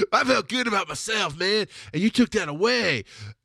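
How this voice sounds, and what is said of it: Put-on redneck voice. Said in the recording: “I do this redneck voice when I feel bad about myself”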